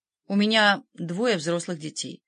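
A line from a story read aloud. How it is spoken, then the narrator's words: Cold reply. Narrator (Russian): холодно ответила она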